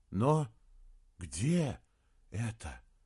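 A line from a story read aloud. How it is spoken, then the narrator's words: Awestruck breathed words. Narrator (Russian): выдохнул Саймон, пораженный и околдованный красотой города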